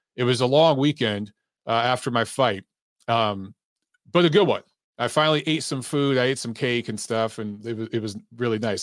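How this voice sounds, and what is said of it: Slightly rough, strained voice. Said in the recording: “my voice is still a little rough ... my voice is going to give out a lot in this show”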